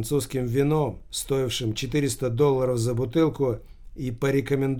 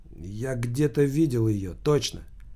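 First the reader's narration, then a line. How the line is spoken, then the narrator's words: Plain. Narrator (Russian): сказал Гаспарян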